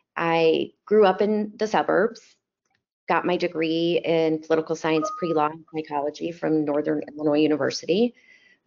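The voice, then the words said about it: Chicago accent. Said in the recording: “I'm originally from Chicago, if my accent hasn't given that away yet.”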